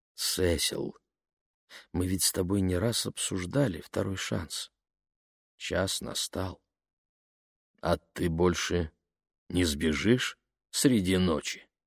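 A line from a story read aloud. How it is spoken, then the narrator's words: Plain. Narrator (Russian): спросил он Кору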